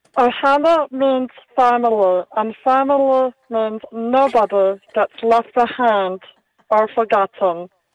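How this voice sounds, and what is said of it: Spot-on Stitch impression. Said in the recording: “an impersonation of Stitch from Lilo and Stitch ... It sounded pretty spot on.”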